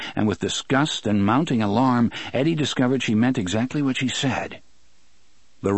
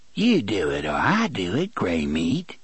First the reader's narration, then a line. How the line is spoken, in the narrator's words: she said in that crooning voice